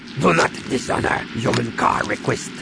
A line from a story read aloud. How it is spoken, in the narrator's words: he growled in her face